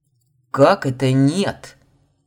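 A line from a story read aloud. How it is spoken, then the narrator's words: Growled. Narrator (Russian): рыкнул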